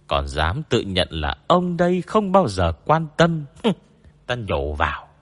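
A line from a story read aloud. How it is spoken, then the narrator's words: Wry resigned mutter. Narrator (Vietnamese): Bách Vô Cầu cười bất đắc dĩ, mới lẩm bẩm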